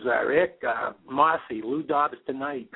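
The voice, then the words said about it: Imitated New York woman's accent. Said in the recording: “a woman on the other end of the New York accent says”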